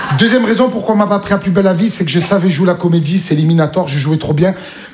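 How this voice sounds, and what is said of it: Marseille French accent. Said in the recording (French): “j'avais l'accent marseillais ... Je viens de Marseille”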